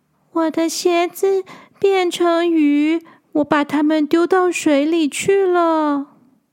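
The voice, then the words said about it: Soft, quiet child's voice. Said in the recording (Chinese): “小声的说”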